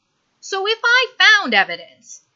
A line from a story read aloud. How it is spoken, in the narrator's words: Stiles interrupts loudly